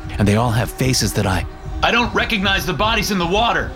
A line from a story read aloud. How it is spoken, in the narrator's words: I shout